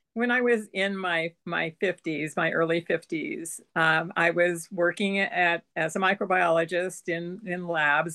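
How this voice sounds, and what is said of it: Hoarse, throaty voice. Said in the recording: “I've got a frog in my throat ... I'll probably clear my throat more than once”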